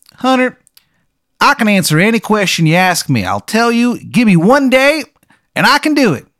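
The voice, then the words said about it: Exaggerated bad Maryland accent. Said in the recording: “his accent—it sounds like something ugly being beaten to death ... It's a bad accent ... it's so bad it doesn't sound real ... it's Maryland”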